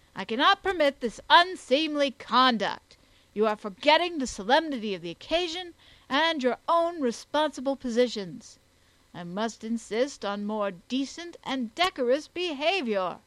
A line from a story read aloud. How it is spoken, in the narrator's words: the coroner protested sternly